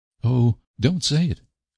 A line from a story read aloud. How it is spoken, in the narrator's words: cried Anne pleadingly